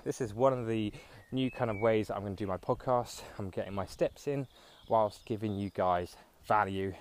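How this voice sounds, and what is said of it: Slightly out of breath. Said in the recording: “As you can hear, I am currently out of breath ever so slightly because I am walking.”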